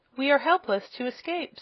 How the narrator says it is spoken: sighed the wizard

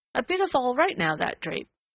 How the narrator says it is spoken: the woman chirped

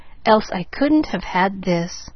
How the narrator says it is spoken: she murmured

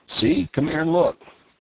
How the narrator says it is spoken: cried the old man

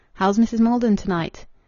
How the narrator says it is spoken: he demanded calmly

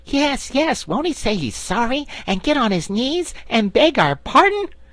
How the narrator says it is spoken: cried Scraps … her scorn of the suggestion

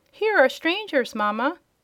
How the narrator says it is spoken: cried the shrill and childish voice of some unseen person

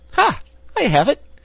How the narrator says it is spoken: she exclaimed

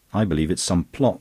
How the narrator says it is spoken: snapped Verloyne

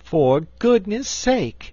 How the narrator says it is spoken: she exclaimed on seeing the Frogman

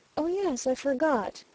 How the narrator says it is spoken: murmured the Oriental lady

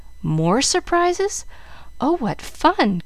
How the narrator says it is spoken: cried Jill

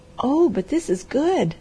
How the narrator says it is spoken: cried

